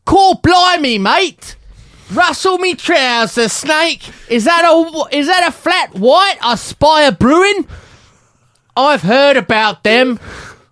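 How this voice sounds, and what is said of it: Fake American-style Cockney accent. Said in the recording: “It's like a sort of Cockney, but sort of pretend, like when Americans do a British accent.”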